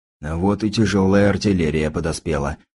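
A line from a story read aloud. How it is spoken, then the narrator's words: Muttering. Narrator (Russian): пробормотал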